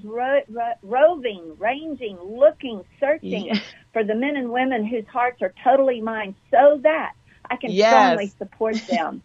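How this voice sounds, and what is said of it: Texas accent. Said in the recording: “I still got my Texas accent.”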